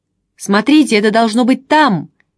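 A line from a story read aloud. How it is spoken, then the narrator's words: Shout. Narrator (Russian): крикнул Чандос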